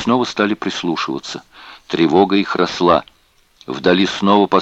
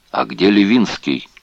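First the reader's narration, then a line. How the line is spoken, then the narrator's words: Plain. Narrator (Russian): спросил Лебенталь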